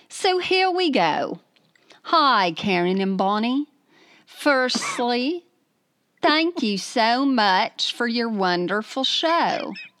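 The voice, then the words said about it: Put-on British accent. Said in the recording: “read in your best British accent ... I did British.”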